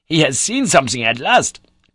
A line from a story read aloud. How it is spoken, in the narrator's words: cried